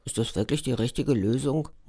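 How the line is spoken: Muttered to himself. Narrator (German): murmelt vor sich hin

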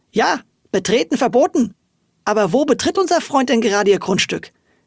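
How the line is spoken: Woman calling. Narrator (German): rief sie

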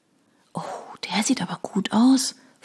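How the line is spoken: Whispering. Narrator (German): flüsterte Eileen

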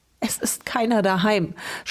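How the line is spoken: Sobbing. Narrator (German): schluchzte sie

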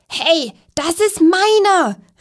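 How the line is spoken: Squeaky voice calling. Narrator (German): rief eine quietschige Stimme

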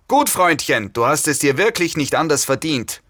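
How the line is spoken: Leader bellowing. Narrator (German): brüllte eine mir neue Stimme, die mir dem Anführer der Gruppe zu gehören schien

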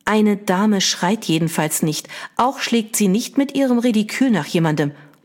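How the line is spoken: Sharp interrupting mother. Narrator (German): unterbrach ihre Mutter sie scharf

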